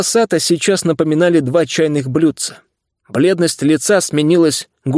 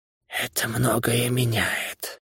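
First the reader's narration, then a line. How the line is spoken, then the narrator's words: Barely audible whisper. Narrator (Russian): одними губами прошептал он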